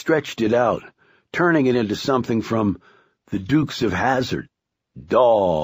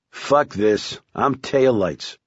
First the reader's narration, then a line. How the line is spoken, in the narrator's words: Curtis said